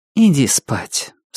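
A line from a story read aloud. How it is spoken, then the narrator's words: Calm. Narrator (Russian): спокойно сказала она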